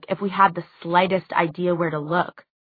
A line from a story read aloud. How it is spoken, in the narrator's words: snapped Alec